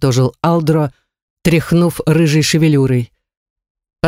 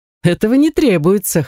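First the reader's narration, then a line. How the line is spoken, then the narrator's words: Short chuckle. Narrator (Russian): хохотнул Ривет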